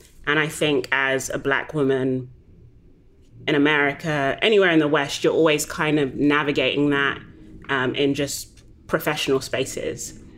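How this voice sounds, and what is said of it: Black British woman's accent. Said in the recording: “as a Black British woman, initially, I think the accent for some people can be disarming ... are you Australian? You're South African?”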